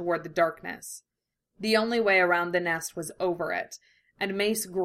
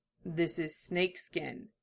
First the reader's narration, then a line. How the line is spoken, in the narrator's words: he said quietly